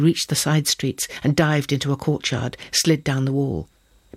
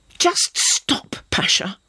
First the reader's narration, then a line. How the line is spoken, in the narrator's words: spat back at him, furious